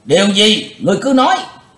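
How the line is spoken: Crowd shouting together. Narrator (Vietnamese): Cả tràng đồng quát

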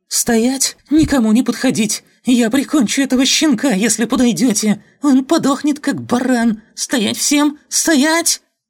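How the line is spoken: Shrill yelling. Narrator (Russian): Видя, что те не слишком этого пугаются, он визгливо заорал

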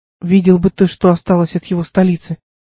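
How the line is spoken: Sigh. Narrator (Russian): вздохнул Диотим

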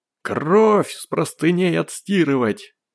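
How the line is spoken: Roared. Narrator (Russian): взревел цыган

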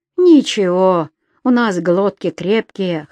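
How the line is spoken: Laughing chuckle. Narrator (Russian): хохотнул Саня

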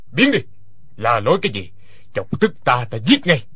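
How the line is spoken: Angry shouting. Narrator (Vietnamese): Hoa Thiết Cán quát lên

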